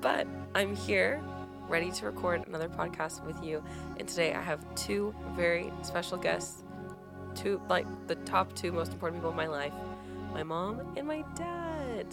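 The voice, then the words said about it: Congested, rough-sounding voice. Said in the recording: “I have gotten a head cold in the past few days, so that's why my voice sounds awful.”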